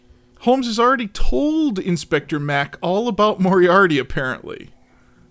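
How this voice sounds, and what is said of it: Usual voice. Nothing is said of it.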